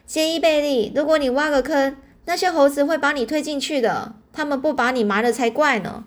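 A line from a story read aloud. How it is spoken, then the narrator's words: Shrill, laughing. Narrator (Chinese): 黛西大笑着尖声说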